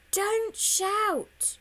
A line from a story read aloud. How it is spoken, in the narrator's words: he yells back